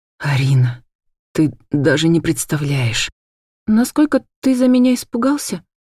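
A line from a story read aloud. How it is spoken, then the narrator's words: Timid whisper. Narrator (Russian): Робко прошептала я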